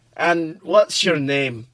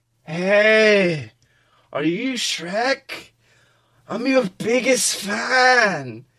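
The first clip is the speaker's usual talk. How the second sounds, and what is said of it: Drunken slurred voice with accent. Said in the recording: “He also seemed to have an accent. ... slurred while having a drink”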